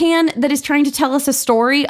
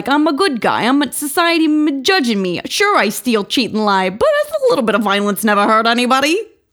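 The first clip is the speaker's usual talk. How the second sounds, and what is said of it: Put-on New York accent. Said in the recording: “I assume it's supposed to be like a New York-y accent-y”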